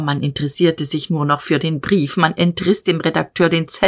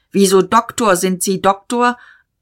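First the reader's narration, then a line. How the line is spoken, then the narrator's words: Called out. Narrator (German): Diederich rief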